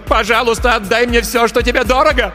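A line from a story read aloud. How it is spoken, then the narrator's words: Shouting. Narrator (Russian): она закричала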